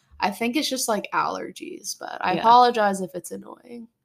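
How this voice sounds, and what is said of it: Raspy, slightly sick voice. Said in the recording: “my voice is off. I am a bit sick... She has a sexy raspiness about her... you got some raspiness”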